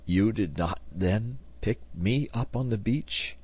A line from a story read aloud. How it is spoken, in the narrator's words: asked Harding in a still feeble voice